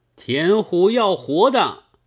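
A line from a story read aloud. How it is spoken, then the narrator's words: Crowd shouting. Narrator (Chinese): 城中大叫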